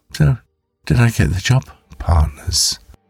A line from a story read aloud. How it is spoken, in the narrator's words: Giggling gently, she said